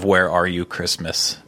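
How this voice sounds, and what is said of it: Sung character voice, breaking into laughter. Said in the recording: “one in my Clara voice ... You started laughing too much.”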